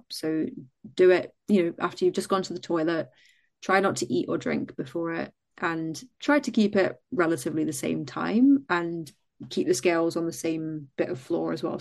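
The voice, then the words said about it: Mixed Scottish-English accent. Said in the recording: “My accent's gone a bit funky because I've gone from Scotland down to England, and it just doesn't know what to do.”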